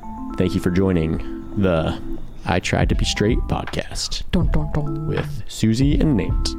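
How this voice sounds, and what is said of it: Put-on deep voice. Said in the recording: “do the voice ... My voice wasn't even that much of a voice. I just did my basic voice. ... You just did your deep voice.”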